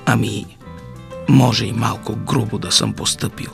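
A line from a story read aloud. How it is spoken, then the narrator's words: Quiet mutter. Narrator (Bulgarian): промърмори за батко тихо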